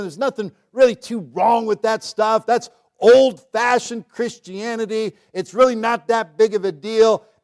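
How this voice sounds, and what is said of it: Sarcastic delivery. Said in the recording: “as I'm saying this sarcastically”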